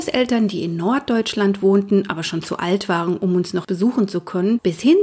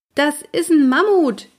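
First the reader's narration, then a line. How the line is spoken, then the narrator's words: Calling upward. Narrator (German): rief ich zu Walli hoch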